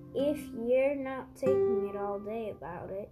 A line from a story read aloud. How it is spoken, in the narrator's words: replied his father